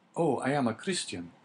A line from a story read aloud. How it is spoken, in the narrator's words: cried Dante